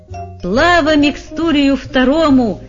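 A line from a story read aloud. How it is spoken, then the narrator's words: Shout. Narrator (Russian): закричал капитан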